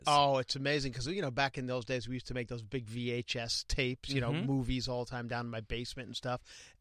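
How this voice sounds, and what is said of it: Thick Long Island accent. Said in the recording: “my accent was... It's thick now, but it was brutal back then... like Long Island, I think.”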